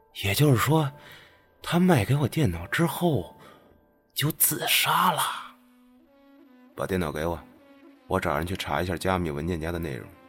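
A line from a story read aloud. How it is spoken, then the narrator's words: Trembling voice. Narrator (Chinese): 他声音有些发颤的说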